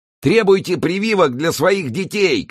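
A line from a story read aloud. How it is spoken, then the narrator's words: Shouting while dodging blows. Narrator (Russian): кричал Траффорд, уклоняясь от ударов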